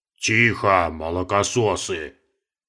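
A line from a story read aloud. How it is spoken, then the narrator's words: Pompous deep bass. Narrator (Russian): важно пробасил Каспар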